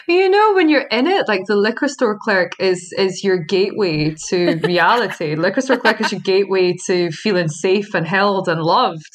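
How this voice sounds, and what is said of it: Speaks with a noticeable accent. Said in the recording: “that's really hard to say with my accent”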